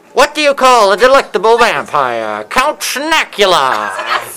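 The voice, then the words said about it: Put-on old Hollywood accent. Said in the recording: “That's like Carlotta's accent. It's old Hollywood”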